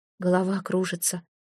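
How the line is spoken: Whispering. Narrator (Russian): прошептал

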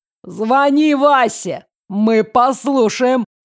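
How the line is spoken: Shouted. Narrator (Russian): крикнул тот, кто сцепился с Ксю словесно

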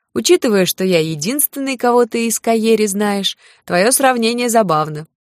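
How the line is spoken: Short laugh. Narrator (Russian): коротко хохотнул Лин

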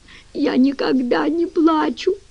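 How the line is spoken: Sobbing, broken speech. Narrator (Russian): рыдая, произнесла, с трудом вставляя слова между всхлипываниями

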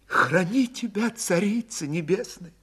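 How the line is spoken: Frantic whisper. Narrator (Russian): иступленно зашептала Ильинична

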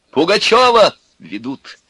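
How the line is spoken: Shouting. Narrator (Russian): кричал он

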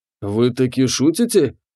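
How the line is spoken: Greedy whisper. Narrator (Russian): Прошептал Лич, жадно вцепившись в сверток

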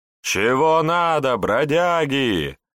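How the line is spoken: Brash yelling. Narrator (Russian): вопили уверенные в своей безнаказанности горожане

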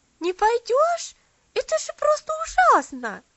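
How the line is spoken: Indignant shout. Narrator (Russian): Возмущенно закричала Луси

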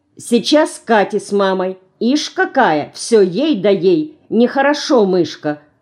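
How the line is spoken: Stern remark. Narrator (Russian): Строго замечает и Алина

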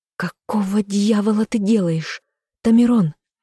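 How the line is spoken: Angry hiss. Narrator (Russian): зашипела Сариэль

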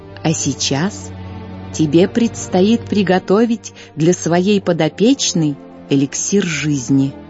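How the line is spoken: Gentle, tender. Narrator (Russian): ласково взяв ее за руку, произнесла

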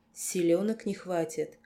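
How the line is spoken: Calm, friendly. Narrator (Russian): совершенно спокойно, дружелюбно даже осведомился Сонхейд

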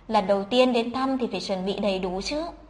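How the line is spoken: Gentle speech. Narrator (Vietnamese): Thẩm Lạc nhẹ nhàng nói

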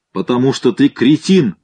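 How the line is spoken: Yelled in the ear. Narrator (Russian): заорал Шпацкий мне в ухо

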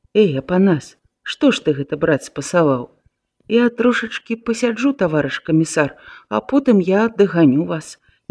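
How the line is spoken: Whispering soldier. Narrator (Belarusian): шаптаў баец

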